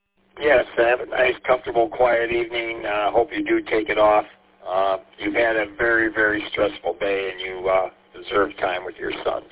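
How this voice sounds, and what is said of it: Raw, hoarse voice. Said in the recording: “apologize for my voice. It's kind of raw. ... I lost my voice.”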